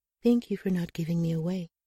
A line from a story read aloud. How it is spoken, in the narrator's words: she said softly